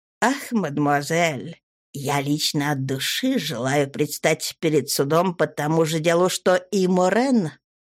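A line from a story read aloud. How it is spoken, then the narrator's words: Humble, low voice. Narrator (Russian): принял смиренный вид и сказал вполголоса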